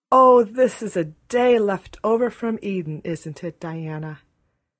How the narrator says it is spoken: Anne sighed for sheer happiness

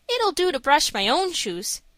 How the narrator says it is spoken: he said

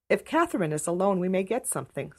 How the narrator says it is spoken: said Diana

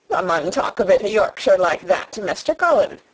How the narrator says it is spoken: Dickon chuckled

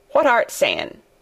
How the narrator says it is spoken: he asked, rather testily, because he did not want his attention distracted

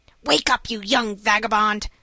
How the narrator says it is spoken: said the man, a little impatiently

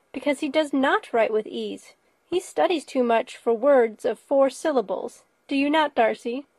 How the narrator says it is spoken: cried her brother

